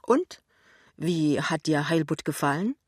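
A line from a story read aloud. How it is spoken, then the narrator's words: Deep sigh, then cheerful. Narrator (German): seufzt tief und sagt dann überraschend munter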